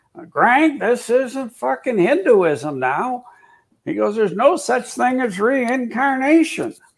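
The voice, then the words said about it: Imitates another person's voice. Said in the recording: “That's a good George Young impersonation. ... You sound a lot like him.”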